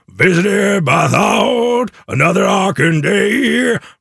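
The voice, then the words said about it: Imitates a singer's voice, badly. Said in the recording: “my absolutely terrible Eddie Vedder impression”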